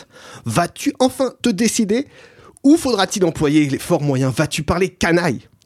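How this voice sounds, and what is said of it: Rastapopoulos voice with Greek accent. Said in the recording (French): “ma voix de Rastapopoulos est moins sûre ... fais la voix de Rastapopoulos. Normalement, il est censé avoir un accent grec”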